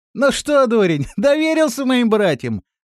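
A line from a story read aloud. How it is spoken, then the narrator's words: Mad laughter. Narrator (Russian): рассмеялся Жермен, и смех его напоминал смех сумасшедшего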